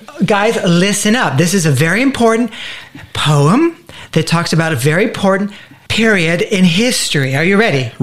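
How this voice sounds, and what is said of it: Put-on cultured teacher-like accent. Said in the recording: “cultured accent voice kind of thing going on? ... like his kindergarten teacher accent ... do something with that voice of yours”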